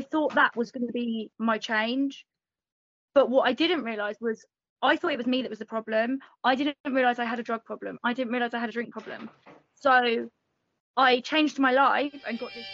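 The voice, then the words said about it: English accent. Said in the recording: “that lovely accent? ... I'm from England. ... Born and raised in England.”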